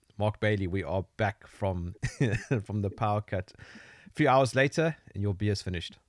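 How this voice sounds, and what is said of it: South African accent. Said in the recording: “the South African accent ... we're familiar with your accent”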